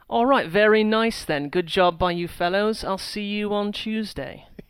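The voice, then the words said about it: Imitated British accent. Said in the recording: “I could try to impersonate ... Was I even in the ballpark you were, of a very, British? ... I get British and, accent impressions on a day-to-day basis”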